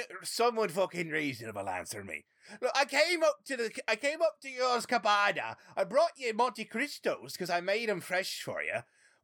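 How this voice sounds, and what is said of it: Inconsistent put-on pirate accent. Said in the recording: “did your accent change three different times ... The pirate, my guy. His accent can change however he fucking wants to.”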